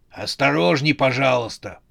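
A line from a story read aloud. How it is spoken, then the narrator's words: Hoarse croak. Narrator (Russian): прохрипел клоун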